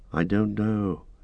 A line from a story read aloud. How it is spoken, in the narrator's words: said Frodo in a dreamlike voice